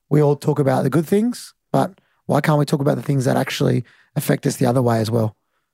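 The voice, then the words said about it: Husky, unusual speaking voice. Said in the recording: “my voice does things to some people ... It's a weird voice ... Husky”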